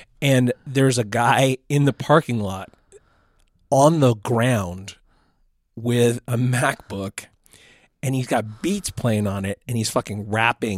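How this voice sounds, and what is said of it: Voice going hoarse. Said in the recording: “I'm losing my voice.”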